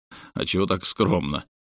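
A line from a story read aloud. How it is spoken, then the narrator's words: Snorting smirk. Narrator (Russian): Алексей хмыкнул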